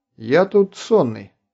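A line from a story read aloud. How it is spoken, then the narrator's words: Plain. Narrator (Russian): ответил Артур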